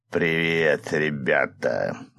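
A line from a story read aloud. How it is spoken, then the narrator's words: Grinning demon. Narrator (Russian): оскалился демон страданий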